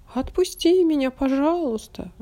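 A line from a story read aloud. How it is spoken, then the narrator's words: Pleading. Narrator (Russian): взмолился карандаш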